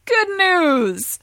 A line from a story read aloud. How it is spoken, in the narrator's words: the Oracle cries